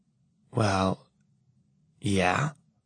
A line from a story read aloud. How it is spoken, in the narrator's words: she says, her voice impossibly toneless